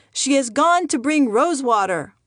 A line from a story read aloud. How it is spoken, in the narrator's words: The family yelled